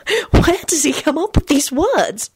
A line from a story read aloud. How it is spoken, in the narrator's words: She whispered to Jamie